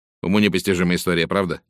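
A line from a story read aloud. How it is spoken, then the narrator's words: Plain. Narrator (Russian): спросил он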